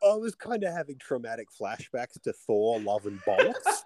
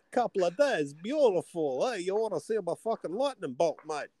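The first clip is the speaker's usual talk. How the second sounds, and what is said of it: Russell Crowe's Zeus accent impression. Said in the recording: “after his Con the Fruity accent on Thor”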